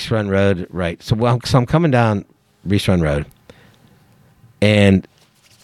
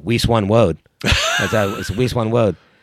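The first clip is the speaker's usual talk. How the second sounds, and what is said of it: Elmer Fudd cartoon voice, R as W. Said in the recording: “as I always like to call it when I come down with Elmer Fudd”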